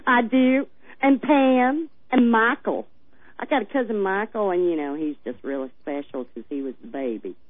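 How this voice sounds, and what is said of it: Strong Missouri regional accent. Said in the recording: “You've got the accent down ... It's not every day you expect to hear an accent like that coming out of Arizona.”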